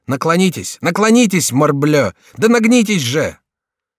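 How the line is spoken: Shouting. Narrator (Russian): кричал Шико

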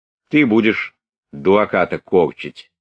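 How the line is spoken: Stern. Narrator (Russian): сказал Денисов строго

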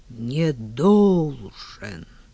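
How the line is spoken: Roaring. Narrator (Russian): взревел Павел Алексеевич

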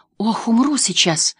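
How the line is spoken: Relieved exhale. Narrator (Russian): выдохнула она с облегчением

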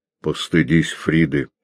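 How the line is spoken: Mumbled. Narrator (Russian): пробормотал Кречмар

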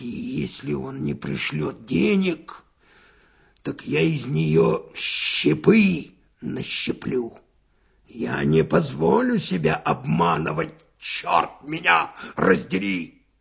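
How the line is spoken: Angry muttering. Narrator (Russian): Финогенов бормотал, сжимая кулаки

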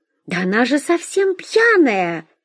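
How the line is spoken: Exclamation. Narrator (Russian): воскликнула Вера

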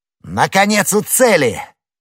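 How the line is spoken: Joyful shout. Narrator (Russian): Д'Артаньян закричал

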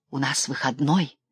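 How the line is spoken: Solemn whisper. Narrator (Russian): шептал торжественно, как в храме Ильчин

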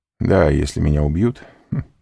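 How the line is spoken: Laughing. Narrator (Russian): сказал, смеясь, Альбер

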